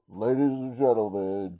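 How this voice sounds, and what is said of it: Imitates an announcer's voice. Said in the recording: “the announcer voice.”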